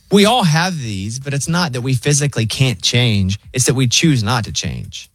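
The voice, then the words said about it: Thick Southern US accent. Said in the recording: “My accent's so thick... it's still a southern accent”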